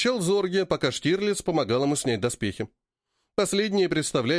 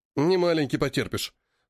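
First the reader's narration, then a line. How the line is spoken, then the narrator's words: Smirking snort. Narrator (Russian): хмыкнул Штирлиц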